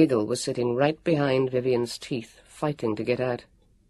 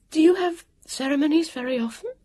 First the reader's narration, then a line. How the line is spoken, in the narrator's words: asked, trying to stop her voice shaking